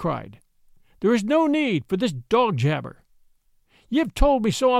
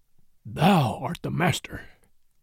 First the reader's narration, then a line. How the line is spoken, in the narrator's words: said Bagheera, in an undertone